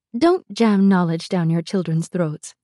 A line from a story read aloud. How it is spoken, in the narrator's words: she said